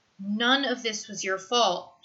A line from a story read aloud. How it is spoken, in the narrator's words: she says, her voice quiet and fierce